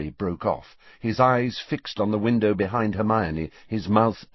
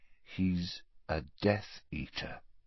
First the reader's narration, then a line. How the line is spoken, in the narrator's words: said Harry slowly